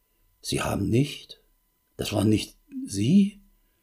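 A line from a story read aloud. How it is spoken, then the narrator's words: Distraught, barely audible stammer. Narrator (German): völlig aus der Fassung und stammelte kaum hörbar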